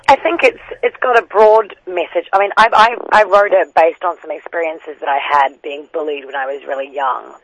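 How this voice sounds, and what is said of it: New Zealand accent. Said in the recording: “you've got an accent ... I grew up in New Zealand until the age of 16 and then moved over to the UK”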